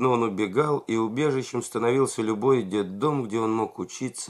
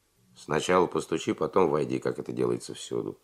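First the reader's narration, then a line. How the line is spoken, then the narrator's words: Dry reply. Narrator (Russian): сухо ответил Лисковский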